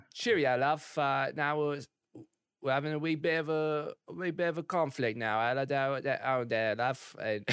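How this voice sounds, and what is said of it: Put-on British accent. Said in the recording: “Can you talk in an English accent ... My British accent always changes. Like, it evolves in the sentence and just, like, completely changes everything.”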